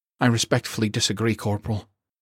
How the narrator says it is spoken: Dixon replied shakily

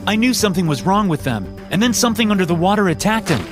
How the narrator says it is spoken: I said desperately

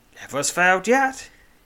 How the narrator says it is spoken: laughs

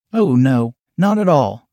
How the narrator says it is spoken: I stammered out

